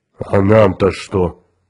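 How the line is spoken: Booming drone. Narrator (Russian): прогудел Грег

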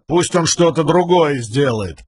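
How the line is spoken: Grumbling. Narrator (Russian): проворчал Тон

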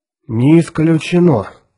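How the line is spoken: Gloomy. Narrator (Russian): мрачно проговорил капитан Фьючер

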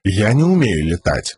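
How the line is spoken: Mutter. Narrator (Russian): буркнул Каладин

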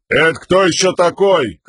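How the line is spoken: Shouted reply. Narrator (Russian): крикнул в ответ ему Камень

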